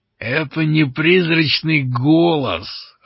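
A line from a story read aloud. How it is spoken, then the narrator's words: Growled. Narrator (Russian): рыкнул он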